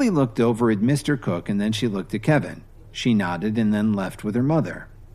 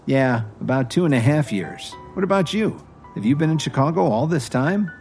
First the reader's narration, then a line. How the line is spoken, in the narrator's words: Cook laughed